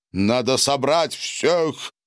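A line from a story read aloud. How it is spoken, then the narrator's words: Muffled drone through towel. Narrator (Russian): Прогудел он сквозь пожелтевшее полотенце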